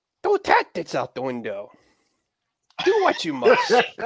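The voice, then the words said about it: Poor Yoda voice impression. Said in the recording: “my really horrible Yoda impression”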